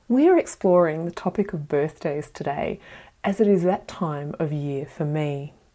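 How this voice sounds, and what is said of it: Sounds unwell, slightly different voice. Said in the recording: “I sound a little different, it's because I'm still returning to health after testing positive to COVID 5 days ago”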